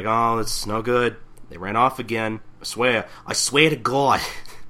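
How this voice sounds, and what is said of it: Put-on Brooklyn Jewish mother accent. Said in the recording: “I give her that voice ... Jewish mother accent ... Jewish mother or Brooklyn? Because you were doing some Brooklyn bit.”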